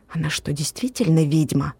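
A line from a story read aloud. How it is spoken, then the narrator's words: Whispered question. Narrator (Russian): Ева шепотом спросила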